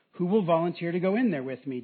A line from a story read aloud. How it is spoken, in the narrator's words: David asked